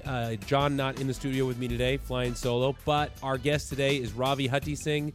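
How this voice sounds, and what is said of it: Sick, under-the-weather voice. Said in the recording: “A little under the weather, if you can't tell from my voice”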